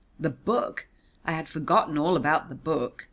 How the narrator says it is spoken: exclaimed with extraordinary callousness

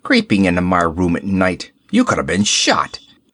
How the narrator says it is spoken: he snarled

